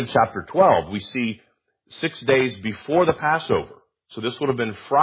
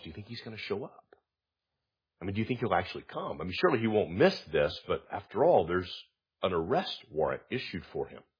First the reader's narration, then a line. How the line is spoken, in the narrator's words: murmuring and whispering among themselves